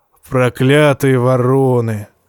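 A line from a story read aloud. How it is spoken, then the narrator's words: Affectionate grumble. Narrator (Russian): как-то даже ласково проворчал Тормунд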